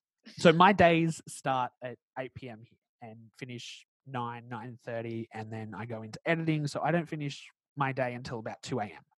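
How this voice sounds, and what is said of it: Australian accent. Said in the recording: “because I live in Australia, if anyone can't tell by my accent”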